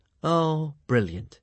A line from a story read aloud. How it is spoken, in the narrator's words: said Hiccup sarcastically